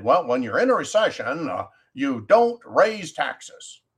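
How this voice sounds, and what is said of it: Weak Barack Obama impression. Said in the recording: “I can't do a very good Obama impression.”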